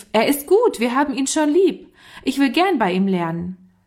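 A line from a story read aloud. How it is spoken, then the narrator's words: Called out. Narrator (German): rief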